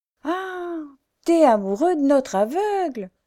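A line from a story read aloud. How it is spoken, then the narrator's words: Exclaiming. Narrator (French): s'écria-t-il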